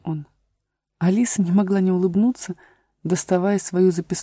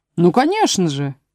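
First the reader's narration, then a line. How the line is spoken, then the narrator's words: Cheerful. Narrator (Russian): весело сказал Пустик-Дутик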